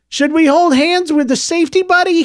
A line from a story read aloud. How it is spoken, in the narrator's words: He shouted out over the crowd